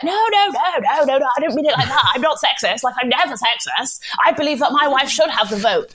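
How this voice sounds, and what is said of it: Generic white Tory man voice. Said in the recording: “I was just doing a generic white Tory vote.”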